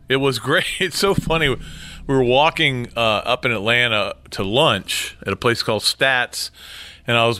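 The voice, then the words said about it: Hoarse, congested voice. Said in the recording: “A little bit under the weather with a sinus problem, so if my voice is a little hoarse”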